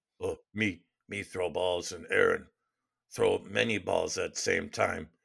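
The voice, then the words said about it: Imitates another person's voice. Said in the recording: “your Aaron Rodgers no impression ... Is that Aaron Rodgers talking about juggling?”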